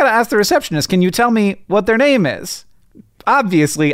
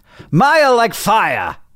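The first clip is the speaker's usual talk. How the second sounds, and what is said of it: Weak fake British accent. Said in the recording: “That's my British accent. ... you have a better fake British accent than that, and you intentionally didn't use it ... how bad your bad fake British accent is”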